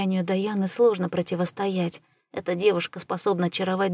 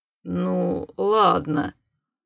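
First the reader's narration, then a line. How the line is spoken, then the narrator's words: Grudging resigned grumble. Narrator (Russian): буркнул Сварк, все еще недовольно, но уже смирившись со своим поражением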